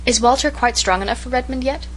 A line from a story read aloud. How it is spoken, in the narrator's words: queried Miss Cornelia anxiously